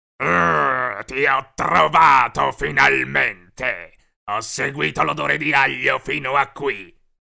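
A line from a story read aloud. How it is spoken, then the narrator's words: Growling. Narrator (Italian): disse ringhiando il licantropo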